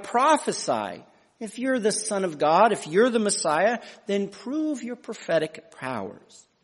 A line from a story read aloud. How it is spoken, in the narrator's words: mocking cry